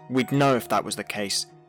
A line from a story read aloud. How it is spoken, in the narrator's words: Shelby snapped